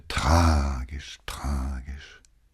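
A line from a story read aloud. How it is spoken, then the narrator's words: Sighing, repeating. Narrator (German): seufzte noch einmal und wiederholte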